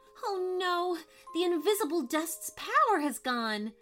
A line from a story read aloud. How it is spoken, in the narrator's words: cried Violet